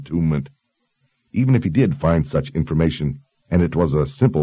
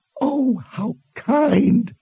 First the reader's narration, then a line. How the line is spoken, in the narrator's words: Zed exclaimed in mock delight